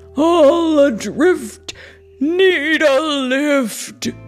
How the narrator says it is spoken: he roared

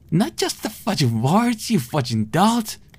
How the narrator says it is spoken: she spat

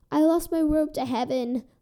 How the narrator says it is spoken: the poor fairy wailed

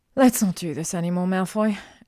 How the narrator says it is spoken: she sighed

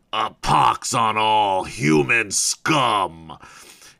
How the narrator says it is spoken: growls the leader, belligerently

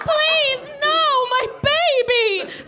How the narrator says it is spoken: screamed the cabbage again

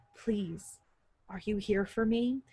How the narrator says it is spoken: she asked in a voice that was a little more than a whisper

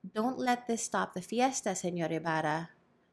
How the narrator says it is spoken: said the alcalde

